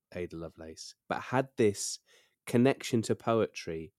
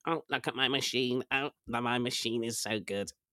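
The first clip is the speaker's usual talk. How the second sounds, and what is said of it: Robotic imitation of another person's voice. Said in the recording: “That's my impression of Charles Babbage ... Like an early robot.”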